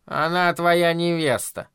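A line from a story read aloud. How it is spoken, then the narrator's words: Grumbling. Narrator (Russian): проворчала миссис Хиглер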